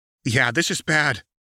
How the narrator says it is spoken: Gohan agreed

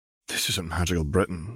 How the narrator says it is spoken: she murmured

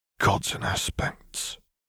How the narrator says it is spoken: Councillor Medardo whispered

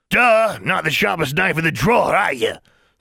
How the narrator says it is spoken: sneered the ferret

